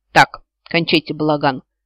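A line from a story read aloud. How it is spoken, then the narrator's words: Sharp shout at group. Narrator (Russian): прикрикнул на нас всех Себастьян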